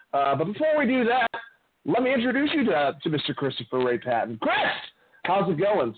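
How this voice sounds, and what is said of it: Loud, excited, near-shouting voice. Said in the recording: “Sorry for screaming at you. I just drank a Red Bull.”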